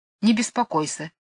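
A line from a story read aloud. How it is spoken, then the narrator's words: Grumbling bass from afar. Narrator (Russian): ответил кто-то из-за ограды ворчливым басом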